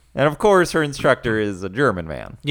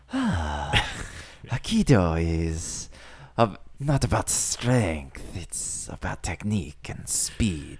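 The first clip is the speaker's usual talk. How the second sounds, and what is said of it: Put-on German accent. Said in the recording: “You can hear my German accent right there.”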